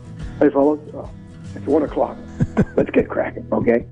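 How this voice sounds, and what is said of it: Much deeper macho voice. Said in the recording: “a much deeper voice, he put on his macho voice.”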